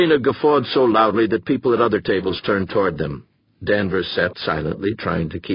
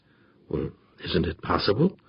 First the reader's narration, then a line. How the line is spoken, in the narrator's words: Danvers asked softly